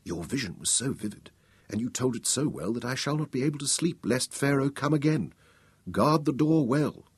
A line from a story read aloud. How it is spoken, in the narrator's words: she whispered